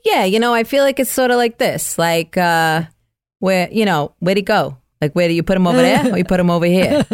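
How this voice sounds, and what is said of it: Put-on New York accent. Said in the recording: “let's hear your New York 27th precinct accent ... Very specific part of New York ... pretty good”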